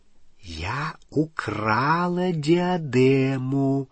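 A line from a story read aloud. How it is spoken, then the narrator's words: Whispered. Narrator (Russian): шепотом повторила Елена Когтевран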